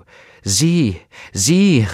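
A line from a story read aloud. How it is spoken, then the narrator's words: Rosebush calling out. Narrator (German): rief der Rosenstrauch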